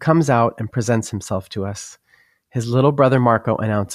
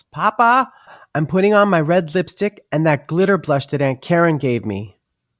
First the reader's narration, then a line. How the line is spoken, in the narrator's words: Luca yells